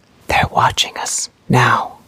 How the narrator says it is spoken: In a voice so quiet she could barely hear it, even with his lips against her ear, he whispered

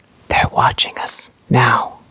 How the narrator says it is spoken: In a voice so quiet she could barely hear it, he whispered

